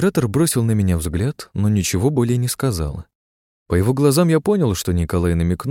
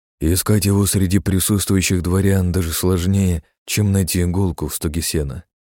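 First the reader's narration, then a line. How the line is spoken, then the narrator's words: Plain. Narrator (Russian): ответил Николай Павлович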